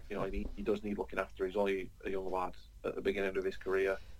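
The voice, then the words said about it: Lancashire English accent. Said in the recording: “your Lancastrian accent”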